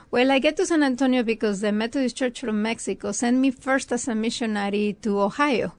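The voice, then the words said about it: Mexican Spanish accent. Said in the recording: “I'm listening to your accent a little bit. Are you from San Antonio? ... No, I'm from Mexico.”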